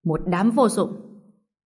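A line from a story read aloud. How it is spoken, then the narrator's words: Angry. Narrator (Vietnamese): Quách Ích tức giận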